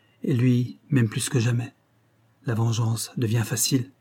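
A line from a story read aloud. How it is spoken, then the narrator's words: Murmured. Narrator (French): murmura-t-elle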